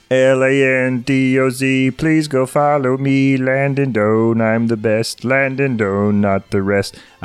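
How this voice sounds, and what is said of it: Imitates another person's voice. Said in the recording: “my Landon impression”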